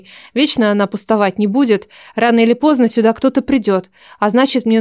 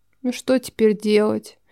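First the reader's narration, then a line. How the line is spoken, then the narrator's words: Muttering. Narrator (Russian): Пробормотала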